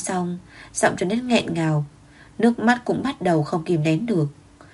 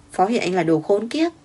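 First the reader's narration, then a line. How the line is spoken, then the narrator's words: Surprised tearful smile. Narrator (Vietnamese): Thịnh Hoan ngạc nhiên, mãi sau mới đến khóc mỉm cười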